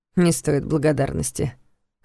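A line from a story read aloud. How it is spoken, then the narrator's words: Dismissive snort. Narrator (Russian): хмыкнул Карпатский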